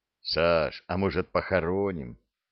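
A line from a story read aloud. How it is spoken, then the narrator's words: Plain. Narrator (Russian): спросил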